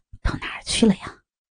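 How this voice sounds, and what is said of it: Quiet mumbling. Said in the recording (Chinese): “小声的嘟囔着”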